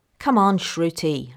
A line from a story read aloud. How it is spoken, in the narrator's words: Lana called irritably